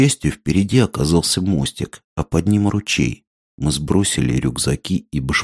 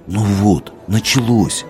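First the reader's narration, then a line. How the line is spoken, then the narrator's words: Gloomy. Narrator (Russian): уныло сказал Минька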